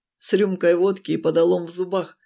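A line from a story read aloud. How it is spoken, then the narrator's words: Amused snort. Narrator (Russian): хмыкнул, вспомнив любимую шутку отца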